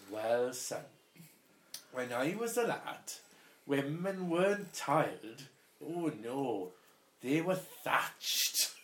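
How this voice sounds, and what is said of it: Put-on Welsh accent. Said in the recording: “Don't know that my Welsh accent is much to go by”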